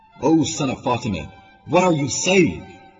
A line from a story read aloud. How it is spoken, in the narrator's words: Shame yelled